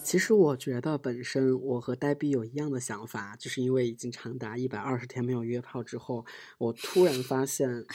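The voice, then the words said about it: Speaking in a hushed quiet voice. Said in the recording (Chinese): “你之所以听到这么小声的声音，是因为我已经被房客投诉了 ... 你认为你自己的小声，其实在在录节目的时候，有有可能声音还是大的”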